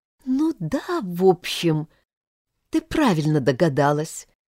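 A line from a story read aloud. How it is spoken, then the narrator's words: Uncertain. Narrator (Russian): неуверенно проговорила Ирина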